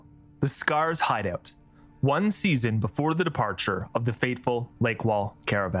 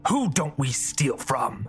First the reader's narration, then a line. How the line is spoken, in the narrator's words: Jal snarled